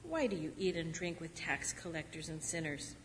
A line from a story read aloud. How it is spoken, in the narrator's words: the Pharisees and their scribes grumbled at his disciples, saying